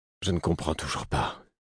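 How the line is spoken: Low voice. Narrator (French): fis-je à mi-voix

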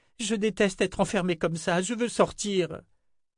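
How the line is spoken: Panicked moaning. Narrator (French): gémit Jensen au bord de la panique

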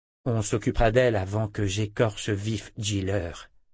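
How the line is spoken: Young woman murmuring. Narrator (French): murmura la jeune femme

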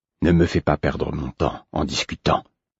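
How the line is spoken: Curt, dry. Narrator (French): fit-il sèchement

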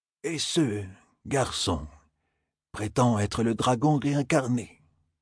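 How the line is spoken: Murmured. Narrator (French): murmura Nial

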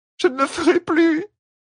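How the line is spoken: Pleading moan. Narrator (French): gémit Bétamine, implorante

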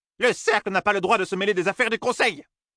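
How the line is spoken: Exclaimed. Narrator (French): s'écria Senbui

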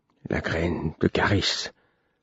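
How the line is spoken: Muffled male voice. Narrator (French): me dit-il d'une voix étouffée

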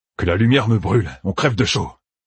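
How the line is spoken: Man grumbling. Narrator (French): grogna un des deux hommes

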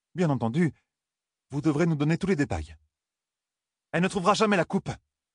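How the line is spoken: Exclaimed. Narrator (French): s'écria Nineveh

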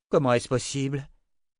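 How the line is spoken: Exclaimed. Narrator (French): s'écria Kara

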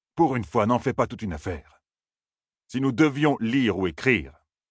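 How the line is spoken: Rather impatient. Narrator (French): dit Abel d'un ton plutôt impatient

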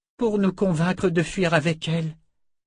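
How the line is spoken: Slightly trembling voice. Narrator (French): dit Rochelle d'une voix qui tremblait un peu

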